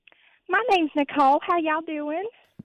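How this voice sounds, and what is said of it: Put-on accent. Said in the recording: “Are you doing a bit, or is this your real accent? ... it was a bit”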